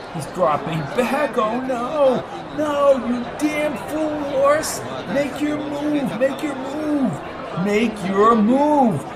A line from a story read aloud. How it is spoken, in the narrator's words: pleaded